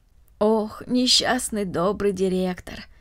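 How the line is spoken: Sighing. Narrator (Russian): вздохнула Марта

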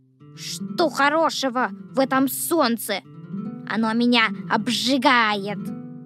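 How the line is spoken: Grumbling. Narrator (Russian): ворчал дождевой червяк

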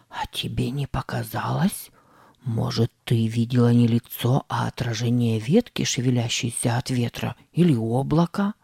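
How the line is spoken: Whisper. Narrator (Russian): зашептал Сэм

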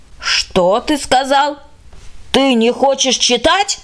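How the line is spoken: Indignant shout. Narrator (Russian): закричала возмущенно

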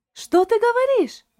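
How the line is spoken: Surprised exclamation. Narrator (Russian): воскликнула Шарлотта и от удивления

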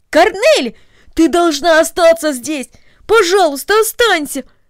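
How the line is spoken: Exclaiming. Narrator (Russian): воскликнул Дино

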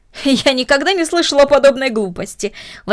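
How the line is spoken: Exclaimed. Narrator (Russian): воскликнула мисс Дорнер

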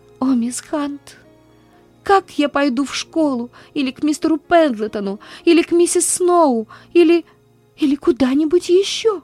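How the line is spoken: Gasping desperate sobbing. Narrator (Russian): Она с трудом хватала ртом воздух и отчаянно рыдала

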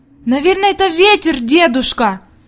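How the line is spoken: Anxious exclamation. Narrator (Russian): воскликнула Хади, и в глазах ее появилась тревога

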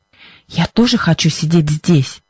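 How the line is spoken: Whispered reply. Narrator (Russian): шепотом ответила Либби

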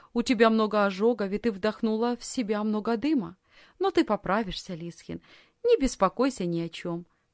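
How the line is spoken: Plain. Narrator (Russian): сказала сиделка

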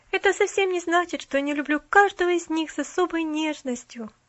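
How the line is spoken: Sigh. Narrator (Russian): Опять вздохнула она

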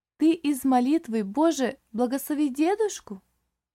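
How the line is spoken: Lively child's exclamation. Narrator (Russian): Живо воскликнула малышка

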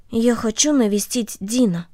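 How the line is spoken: Quiet voice. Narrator (Russian): Корнелли тихо сказала ей

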